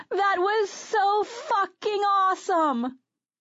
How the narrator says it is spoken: Serena burst through the bodies and screamed

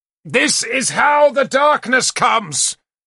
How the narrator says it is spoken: Galahad shouted at me

